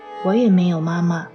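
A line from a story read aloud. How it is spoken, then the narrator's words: Gentle but firm. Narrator (Chinese): 莎拉温柔但是坚定的说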